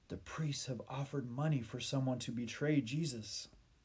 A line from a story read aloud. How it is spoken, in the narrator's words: Eli whispered